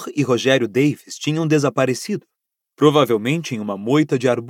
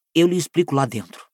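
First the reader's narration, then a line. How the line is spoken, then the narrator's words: Quiet speech. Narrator (Portuguese): disse Rony baixinho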